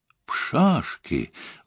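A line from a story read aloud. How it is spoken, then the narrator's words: Exclaimed. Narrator (Russian): воскликнул инспектор Воин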